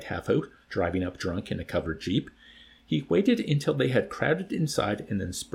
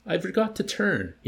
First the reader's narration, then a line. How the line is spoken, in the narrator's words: he exclaimed